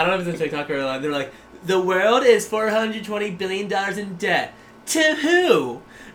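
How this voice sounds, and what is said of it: Usual voice. Nothing is said of it.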